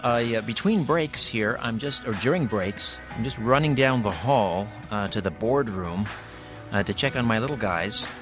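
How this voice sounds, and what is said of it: Slightly out of breath. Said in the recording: “I'm a little out of breath.”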